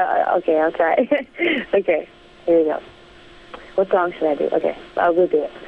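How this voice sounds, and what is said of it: Usual voice. Nothing is said of it.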